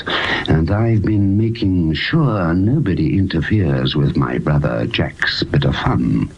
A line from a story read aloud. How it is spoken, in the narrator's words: the man whispered in a thin, mad voice